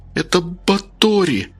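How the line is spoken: Trembling voice. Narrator (Russian): дрожащим голосом сказала Рита

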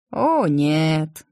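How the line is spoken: Fox sighing. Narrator (Russian): вздохнул лис

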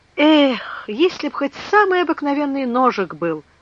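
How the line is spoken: Sailor sighing. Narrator (Russian): вздохнул моряк

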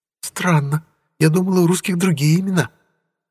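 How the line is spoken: Cooing. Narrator (Russian): проворковала Кэрол

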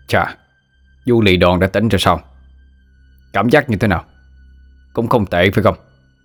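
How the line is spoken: Sneering mocking voice. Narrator (Vietnamese): tên đầu trọc cười khẩy

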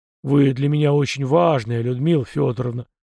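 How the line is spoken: Muffled mutter, young man. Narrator (Russian): глухо пробормотал парень

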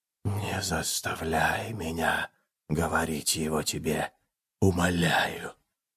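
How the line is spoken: Dead man's whisper. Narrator (Russian): прошептал голос мертвеца

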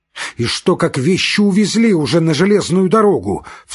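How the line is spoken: Desperate cry. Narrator (Russian): вскрикнул он с отчаянием

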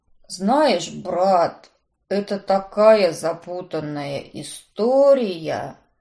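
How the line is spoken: Mumbling. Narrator (Russian): промямлил мой сообщник

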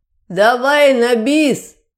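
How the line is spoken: Shouting. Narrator (Russian): какая-то сволочь прокричала

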